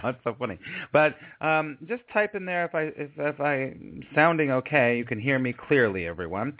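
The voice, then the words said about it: Slightly hoarse, froggy voice. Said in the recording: “I'm getting a little bit of frog in my throat, but I'm sort of liking what my voice sounds like right now”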